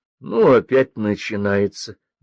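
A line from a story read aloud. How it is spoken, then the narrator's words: Displeased drawl. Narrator (Russian): Недовольно протянула Света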